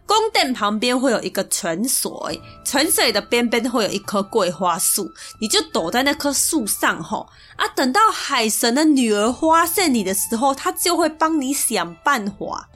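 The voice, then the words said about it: Heavy put-on regional accent. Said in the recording (Chinese): “应该还听得懂吧？可能口音太重了哈。”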